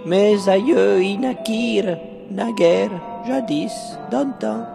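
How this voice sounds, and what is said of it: Slight foreign accent. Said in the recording (French): “D'où votre léger accent?”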